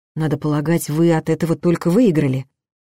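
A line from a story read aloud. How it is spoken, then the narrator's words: Angry remark. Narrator (Russian): зло заметила я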